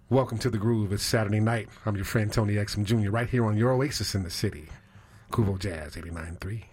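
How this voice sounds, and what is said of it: Smooth jazz radio host voice. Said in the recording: “Give me your best jazz voice”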